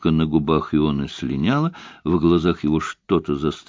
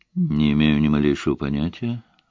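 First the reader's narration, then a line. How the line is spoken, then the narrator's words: Even assuring tone. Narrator (Russian): ровным тоном заверил он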